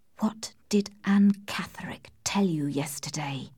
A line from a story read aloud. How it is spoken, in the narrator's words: He held my arm tightly and whispered to me